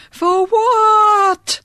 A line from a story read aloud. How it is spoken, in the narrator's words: shrieked again